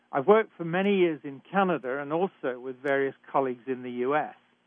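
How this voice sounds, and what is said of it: British English accent. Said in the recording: “I was trained in Britain, and I'm sure you can tell that from my accent.”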